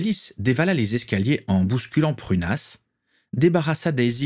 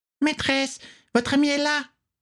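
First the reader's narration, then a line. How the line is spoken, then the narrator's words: Squeaked. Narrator (French): couina-t-elle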